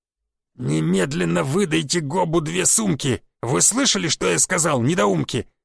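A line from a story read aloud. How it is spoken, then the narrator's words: Growling. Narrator (Russian): зарычал Гоб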